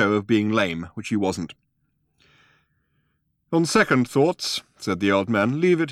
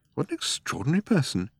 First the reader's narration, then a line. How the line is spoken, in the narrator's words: he muttered to himself